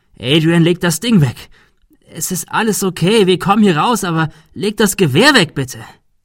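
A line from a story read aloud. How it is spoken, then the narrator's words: Shouted. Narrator (German): schrie Thomas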